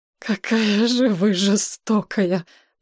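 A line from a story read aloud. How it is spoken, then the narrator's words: Moaned. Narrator (Russian): простонал Воронин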